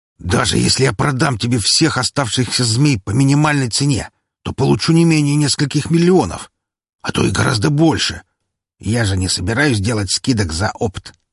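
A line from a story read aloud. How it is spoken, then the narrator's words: Smuggler's excited exclamation. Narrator (Russian): с возбуждением воскликнул контрабандист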